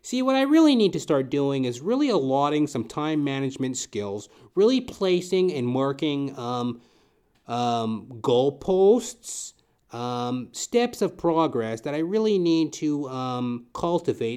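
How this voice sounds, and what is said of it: Pedantic managerial-type voice. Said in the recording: “talking like a very pedantic, managerial type.”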